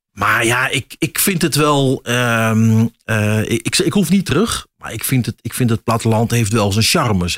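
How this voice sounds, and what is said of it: Dutch Achterhoek regional accent. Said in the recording (Dutch): “misschien hoor het aan mijn accent. Ik ben echt achter, achterhoek wat dat betreft ... meer Achterhoek”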